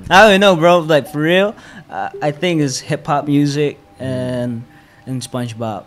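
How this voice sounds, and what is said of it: American-accented English. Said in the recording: “your American accent, English, how did all this accent form?”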